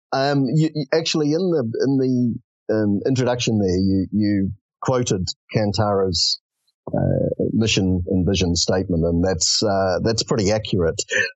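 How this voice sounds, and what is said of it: Slightly flat New Zealand accent. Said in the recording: “a New Zealand accent that you're hearing, slightly flatter than perhaps New Zealand accents”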